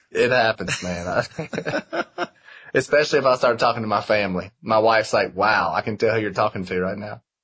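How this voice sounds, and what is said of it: Strong Southern US accent. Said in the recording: “The most southern thing about me is blank ... Probably still my accent ... since I moved out of Georgia ... it starts to get pretty thick ... It's still plenty strong”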